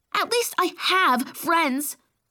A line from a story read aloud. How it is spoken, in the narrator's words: I snapped